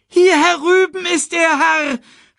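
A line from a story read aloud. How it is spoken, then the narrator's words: Called out. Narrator (German): rief Sasu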